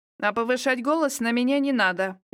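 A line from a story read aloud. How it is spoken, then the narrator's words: Rude. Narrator (Russian): грубо ответила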